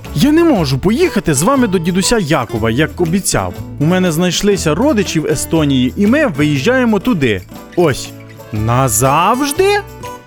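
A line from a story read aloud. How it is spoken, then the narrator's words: Frightened exclamation. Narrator (Ukrainian): перелякано вигукнув Яша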